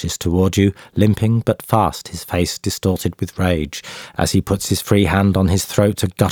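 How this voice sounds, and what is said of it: Usual voice. Nothing is said of it.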